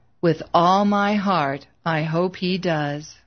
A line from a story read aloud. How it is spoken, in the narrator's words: Struggling to keep his voice level, Bill said